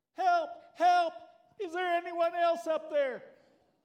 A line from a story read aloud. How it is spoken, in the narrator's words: There was a long silence, and finally Jack yelled